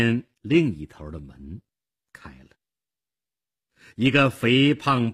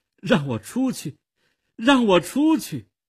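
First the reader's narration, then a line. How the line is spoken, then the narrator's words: Pleading. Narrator (Chinese): 米勒哀求着说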